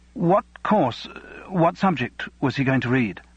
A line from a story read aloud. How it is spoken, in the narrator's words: Simon's words were unusually faltering